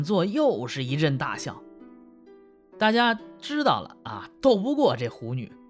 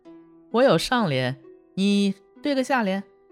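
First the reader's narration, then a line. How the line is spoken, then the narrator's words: Joking tone. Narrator (Chinese): 孙德言跟万福开玩笑说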